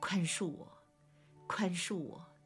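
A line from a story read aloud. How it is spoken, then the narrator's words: Sobbing brokenly. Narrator (Chinese): 痛哭失声说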